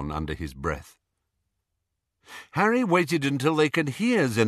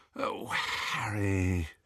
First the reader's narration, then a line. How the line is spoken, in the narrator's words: she said wearily